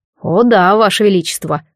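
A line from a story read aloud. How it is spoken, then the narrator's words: Snorting. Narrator (Russian): фыркнул глубинник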